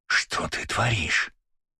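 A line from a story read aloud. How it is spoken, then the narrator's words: Hissed in ear. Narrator (Russian): прошипел мне на ухо Жан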